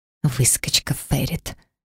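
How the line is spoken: Barely audible whisper. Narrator (Russian): едва слышно прошептала бывшая подруга

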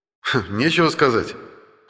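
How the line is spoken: Snorting grunt. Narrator (Russian): хмыкнул я

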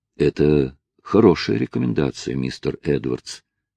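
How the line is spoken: Gentle judge. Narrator (Russian): мягко проговорил судья

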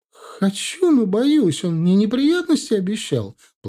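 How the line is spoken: Whiny tearful voice. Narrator (Russian): плаксивым голосом ответила она

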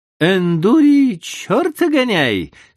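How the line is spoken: Pleased voice. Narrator (Russian): сказал он довольным голосом

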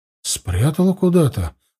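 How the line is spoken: Confused answer. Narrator (Russian): растерянно ответила Эльвира

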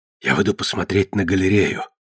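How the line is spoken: Whisper. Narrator (Russian): шепнула Эрис

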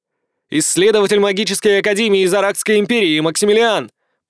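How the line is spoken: Shouting. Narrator (Russian): прокричал я

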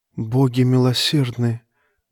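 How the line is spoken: Repeated whisper. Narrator (Russian): без конца шептала она

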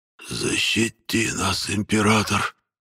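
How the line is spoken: Stunned whisper. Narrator (Russian): прошептал Хокус ошеломленно

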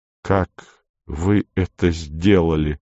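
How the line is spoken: Half-voiced question. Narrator (Russian): спросил я вполголоса

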